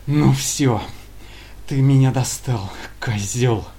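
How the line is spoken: Breathless furious hiss. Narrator (Russian): Задыхаясь от бессильной злобы, прошипел боец

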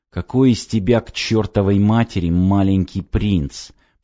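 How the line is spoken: Hissing. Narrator (Russian): прошипел я

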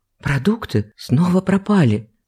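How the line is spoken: Whispered. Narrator (Russian): шепотом произнесла Наталья

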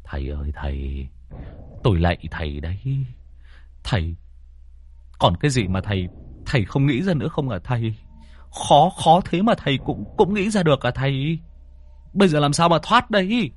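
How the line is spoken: Muttering. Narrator (Vietnamese): Phong lẩm bẩm

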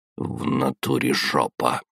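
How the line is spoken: Mutter. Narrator (Russian): пробормотал я

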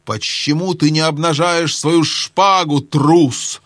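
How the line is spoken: Fierce hiss. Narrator (Russian): прошипел с самым свирепым видом Рипи-Чип

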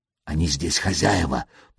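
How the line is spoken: Whisper. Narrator (Russian): прошептал

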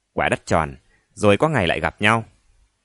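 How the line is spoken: Bitter tone. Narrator (Vietnamese): tướng Đính nói với viên đại tá bằng giọng cay cú

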